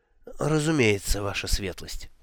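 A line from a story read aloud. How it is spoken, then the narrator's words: Muttering. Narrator (Russian): пробормотал он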